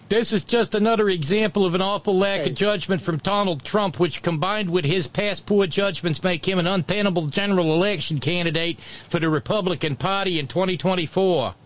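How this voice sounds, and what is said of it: Exaggerated New Jersey accent. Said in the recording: “terrible New Jersey accent”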